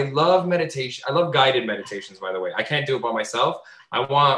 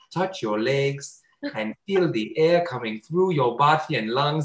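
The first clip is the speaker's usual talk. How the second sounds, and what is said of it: Fake Indian accent, meditation-guide voice. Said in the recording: “one of those like cool voices where it's clearly a white guy who has some sort of like weird Indian accent ... Why do you have that accent?”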